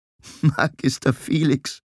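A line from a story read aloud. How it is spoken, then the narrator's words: Giggling. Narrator (German): kicherte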